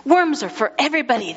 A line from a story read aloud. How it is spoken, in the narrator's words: they cried